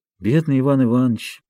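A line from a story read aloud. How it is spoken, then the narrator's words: Sad sighing. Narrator (Russian): говорил хозяин, печально вздыхая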